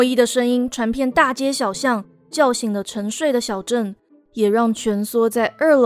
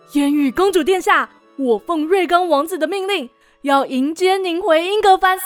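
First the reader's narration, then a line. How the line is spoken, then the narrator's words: Shouting upward. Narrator (Chinese): 对空中高喊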